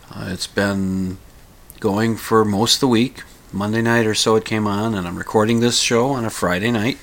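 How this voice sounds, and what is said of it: Slightly congested, sniffly voice. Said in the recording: “I have a little bit of a cold. ... I will attempt to minimize the sniffling and the throat clearing”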